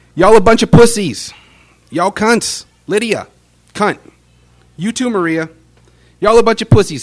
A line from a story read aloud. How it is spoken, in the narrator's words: He shouts